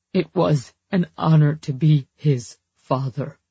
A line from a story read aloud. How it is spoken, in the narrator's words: Ross croaked